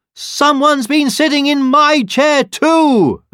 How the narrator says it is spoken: exclaimed the mother bear

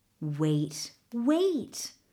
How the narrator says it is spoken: Mingo said soothingly

